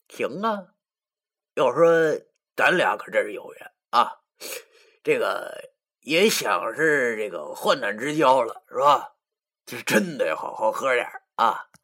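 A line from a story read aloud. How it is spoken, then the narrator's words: Cheerful laughing, picking teeth. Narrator (Chinese): 易星星正在剔牙，他笑着对我说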